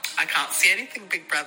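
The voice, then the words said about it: Imitates another person's voice. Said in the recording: “Good Reggie impression.”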